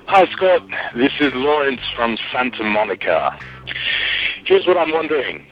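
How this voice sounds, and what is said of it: Heavy, un-Californian accent. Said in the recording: “that's one heck of an accent. He almost sounds like ... of Arabia instead of ... from Santa Monica.”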